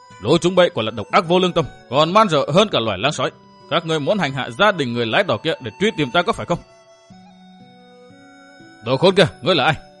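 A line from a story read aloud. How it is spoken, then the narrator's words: Shouted question. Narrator (Vietnamese): Phương Kiện quát hỏi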